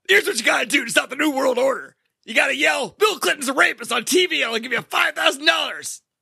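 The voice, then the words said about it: Imitates another person's voice. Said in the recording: “That's my Alex Jones impression.”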